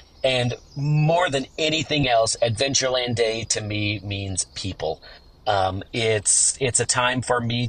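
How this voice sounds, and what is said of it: Sick, rough-sounding voice. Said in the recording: “apologize for my voice ... this gross sickness that is causing me to sound as nasty as I do”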